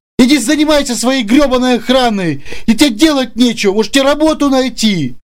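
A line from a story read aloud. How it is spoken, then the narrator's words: Near shriek. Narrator (Russian): пытаясь задеть самолюбие Саши Ичо, почти провизжал Сергей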